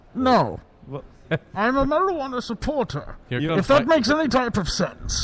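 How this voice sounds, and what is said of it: Deep menacing masked villain voice. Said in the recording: “putting on the Bane voice ... I was enjoying the Bane voice”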